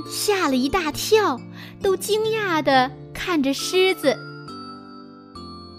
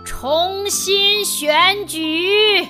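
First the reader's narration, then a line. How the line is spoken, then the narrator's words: Deep breath, then roar. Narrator (Chinese): 老国王深深地吸了一口气，然后大吼一声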